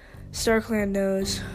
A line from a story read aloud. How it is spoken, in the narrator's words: Fireheart sighed